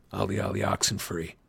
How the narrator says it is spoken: breathed

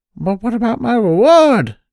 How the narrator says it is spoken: the crane called anxiously

